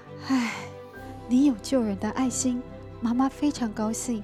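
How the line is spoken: Sighing. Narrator (Chinese): 玉环叹了口气

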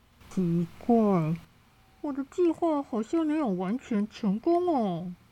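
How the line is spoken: Sighing man. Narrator (Chinese): 规矩先生叹一口气说

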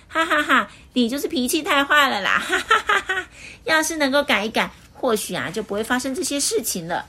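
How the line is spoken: Hearty laughter. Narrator (Chinese): 快乐先生忍不住大笑

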